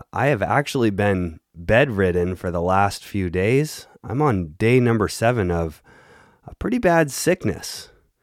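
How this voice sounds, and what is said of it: Sick, unwell-sounding voice. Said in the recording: “as you can hear in my voice, I am not 100% right now”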